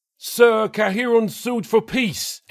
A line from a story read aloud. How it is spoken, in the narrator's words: Aster shouted